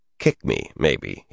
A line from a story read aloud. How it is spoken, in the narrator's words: chuckled